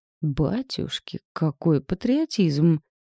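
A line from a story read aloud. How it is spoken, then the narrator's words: Mock-impressed exclamation. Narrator (Russian): впечатлился Назар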